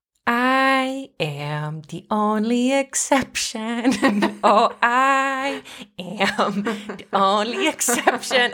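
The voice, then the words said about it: Sing-songy joke voice. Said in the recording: “our little under our roof kind of sing-songy joke voice”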